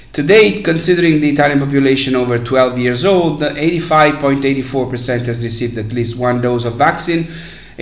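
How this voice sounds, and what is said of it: Hoarse, congested voice. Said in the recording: “I apologize for my voice. It's just a severe cold”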